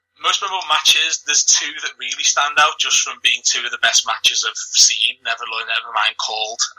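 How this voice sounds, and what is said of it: Mild Liverpool Scouse accent. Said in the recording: “you can tell by my accent, I'm a Scouser... I haven't got the strongest Liverpool accent”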